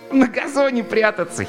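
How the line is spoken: Giggle. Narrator (Russian): хихикнул Марк

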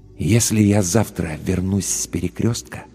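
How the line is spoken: Very quiet, distinct whisper. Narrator (Russian): прошептал он очень тихо, но очень отчетливо

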